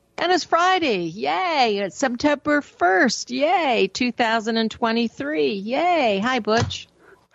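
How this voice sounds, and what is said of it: Happy, cheerful voice. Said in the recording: “You sound happy.”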